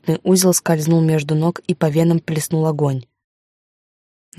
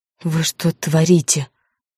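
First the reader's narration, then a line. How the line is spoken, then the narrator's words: Through gritted teeth. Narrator (Russian): процедила я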